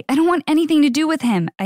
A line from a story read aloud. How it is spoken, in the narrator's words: I yelled